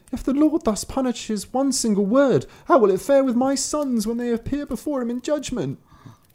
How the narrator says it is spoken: Then the woman began to weep and cried

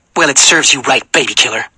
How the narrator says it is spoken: she snarled

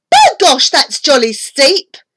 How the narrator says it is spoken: She cried

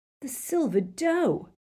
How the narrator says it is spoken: he said excitedly

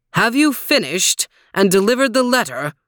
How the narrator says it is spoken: bellowed John's master

